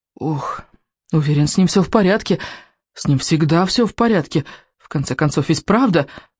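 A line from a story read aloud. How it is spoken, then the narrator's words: Muttering. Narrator (Russian): бормотал рыбинок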